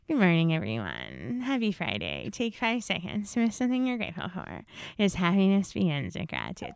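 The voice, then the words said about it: Imitates another person's voice. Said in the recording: “my impression ... that is my impression of Turtle Creek Lane”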